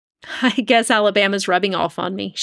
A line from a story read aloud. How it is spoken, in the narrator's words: she laughed